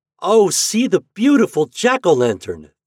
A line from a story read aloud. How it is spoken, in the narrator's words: they cried